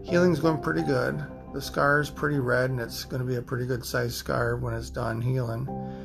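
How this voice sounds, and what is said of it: Raspy, hoarse voice. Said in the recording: “I apologize for my voice still being raspy... My voice is pretty raspy.”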